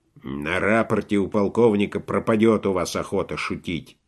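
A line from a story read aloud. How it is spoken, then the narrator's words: Grumbling. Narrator (Russian): заворчал профос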